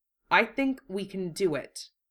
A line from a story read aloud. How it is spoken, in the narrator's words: Wufei answered, quietly and firmly